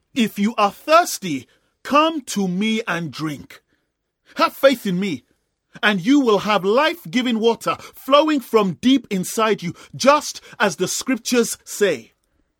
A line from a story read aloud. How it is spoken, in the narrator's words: Jesus shouted